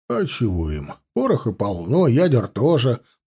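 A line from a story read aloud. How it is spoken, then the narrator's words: Grumbling. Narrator (Russian): проворчал Чанов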